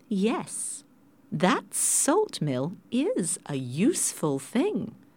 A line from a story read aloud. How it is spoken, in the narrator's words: said the captain